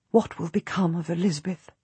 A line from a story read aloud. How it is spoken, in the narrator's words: whisper